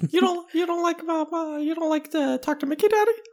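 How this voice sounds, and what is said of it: Mickey Mouse cartoon voice. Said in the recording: “Mickey Mouse voice ... skip to the part where you stop doing the impression”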